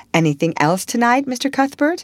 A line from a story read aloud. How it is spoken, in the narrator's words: Miss Harris cheerfully inquired